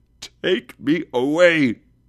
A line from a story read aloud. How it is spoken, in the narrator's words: Scrooge exclaimed